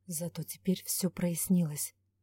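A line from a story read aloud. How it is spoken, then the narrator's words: Muttering. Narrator (Russian): пробормотал Ивар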